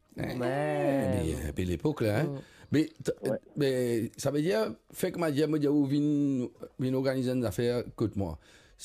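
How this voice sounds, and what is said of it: Slight Portuguese accent. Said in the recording (French): “vous êtes mauricien ou... ... Portugais. Petit accent. ... à cause de l'accent. ... Petit accent pour moi, normal.”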